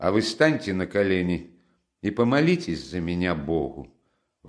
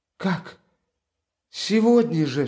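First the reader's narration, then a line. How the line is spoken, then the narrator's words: Desperate cry. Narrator (Russian): вскрикнула она, как бы теряя его навеки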